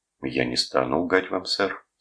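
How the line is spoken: Calm reply. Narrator (Russian): спокойно ответил Рудольф

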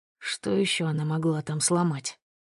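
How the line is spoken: Rhetorical mutter, male. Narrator (Russian): пробормотал Широков, не ожидая получить ответа на свой вопрос

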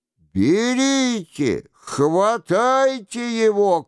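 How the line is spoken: Angry crowd shouting. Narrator (Russian): кричала разгневанная милиция

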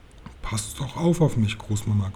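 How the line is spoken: Panting. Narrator (German): keuchte

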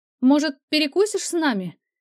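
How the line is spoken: Calling out after someone. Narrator (Russian): крикнула Тейла ему вслед

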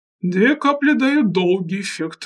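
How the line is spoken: Snorting, rector. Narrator (Russian): хмыкнул ректор

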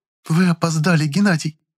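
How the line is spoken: Indignant exclamation, female. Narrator (Russian): С негодованием воскликнула она

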